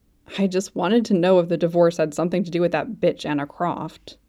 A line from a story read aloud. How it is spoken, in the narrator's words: he grumbled